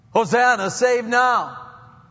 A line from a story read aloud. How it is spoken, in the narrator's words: many in this crowd shouted